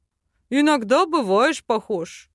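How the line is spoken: Chuckled. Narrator (Russian): хохотнул побратим

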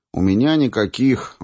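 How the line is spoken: Sigh. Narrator (Russian): вздохнул я

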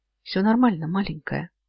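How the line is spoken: Gentle smiling. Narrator (Russian): я мягко улыбнулся

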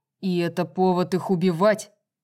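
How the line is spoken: Shouting. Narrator (Russian): закричал Рун

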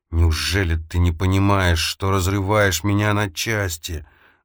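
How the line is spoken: Hissed. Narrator (Russian): зашипела она

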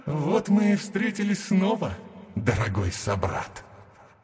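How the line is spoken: Loud laughing. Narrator (Russian): захохотал Титан разума

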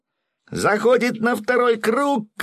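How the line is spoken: Shouted. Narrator (Russian): крикнул Гензо

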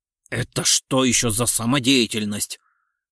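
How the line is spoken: Indignant speech. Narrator (Russian): возмущенно проговорил генерал

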